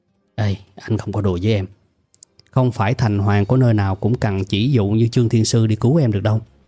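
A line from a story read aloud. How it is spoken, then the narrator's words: Icy cold speech. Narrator (Vietnamese): anh ấy lại kho phục vẻ mặt lạnh lùng như băng và nói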